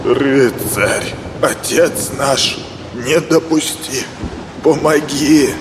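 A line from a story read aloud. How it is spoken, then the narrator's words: Old man's frightened mutter. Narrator (Russian): Испуганно бормотал старик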